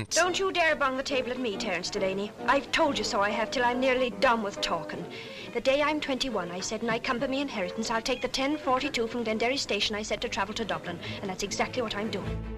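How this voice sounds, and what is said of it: Put-on Irish accent. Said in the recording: “there's no one Irisher than Bridie Quilty ... That is, until you hear her accent. ... Scottish Deborah Carr there, being Irish Bridie Quilty.”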